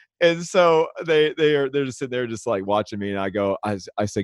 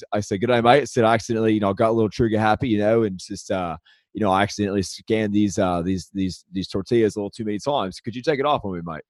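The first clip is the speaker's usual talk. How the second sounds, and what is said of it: Put-on Australian accent. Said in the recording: “I'm going to talk to this guy in an Aussie accent... By the way, I don't have an accent... I saw right through it”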